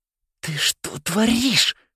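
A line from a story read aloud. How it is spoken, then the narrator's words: Hissed through teeth. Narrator (Russian): прошипел Нолан сквозь зубы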